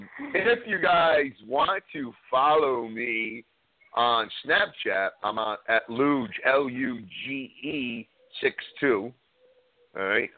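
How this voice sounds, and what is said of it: Noticeable regional accent. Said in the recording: “they love my accent ... Of course you don't think you have an accent”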